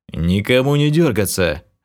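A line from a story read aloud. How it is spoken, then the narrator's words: Growled. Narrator (Russian): рыкнул я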